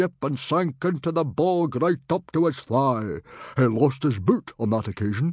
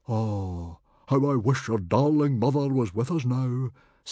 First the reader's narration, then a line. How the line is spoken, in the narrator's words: sighed Stoic